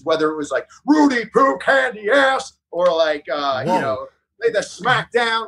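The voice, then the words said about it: Imitates another person's voice. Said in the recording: “You do a very good Rock impersonation.”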